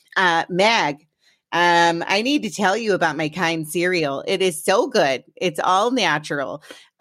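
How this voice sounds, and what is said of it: Imitates another person's voice. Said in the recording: “use this voice when I'm talking like my mom. She doesn't really sound like this, but for some reason, this is how she sounds in my head.”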